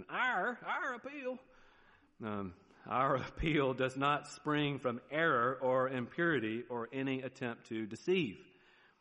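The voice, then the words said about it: Southern American accent. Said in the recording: “there's my southern accent.”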